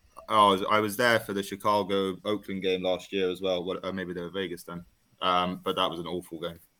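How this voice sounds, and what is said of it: London accent. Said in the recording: “Calling in from London. ... Wow, what an accent. This is amazing. ... Excuse the accent.”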